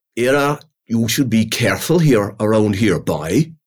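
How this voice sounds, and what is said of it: Whispered good Irish accent. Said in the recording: “whisper ... that's a good Irish accent ... terrible accents”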